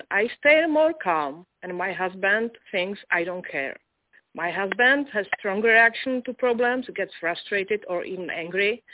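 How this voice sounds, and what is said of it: Heavily accented non-native English. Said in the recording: “I'm having a little trouble with your accent,”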